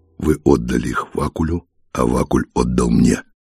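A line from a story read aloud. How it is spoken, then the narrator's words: Hoarse, cold-roughened voice. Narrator (Russian): хрипло и простуженно сказал он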